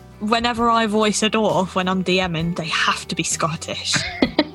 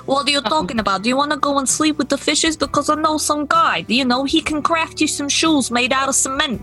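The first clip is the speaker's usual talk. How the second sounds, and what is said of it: Mafia-style gangster voice. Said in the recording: “goblins are like mafia”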